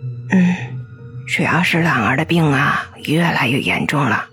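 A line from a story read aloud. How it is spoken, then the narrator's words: Quiet worried mutter. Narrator (Chinese): 刘丽丽皱了皱眉头，小声的嘀咕了一句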